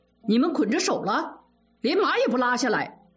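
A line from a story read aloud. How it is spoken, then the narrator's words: Angry scolding shout. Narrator (Chinese): 贾蓉 恼羞成怒地喝骂小厮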